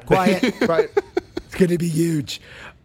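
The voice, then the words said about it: Imitates another person's voice. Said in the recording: “That's a good Trump.”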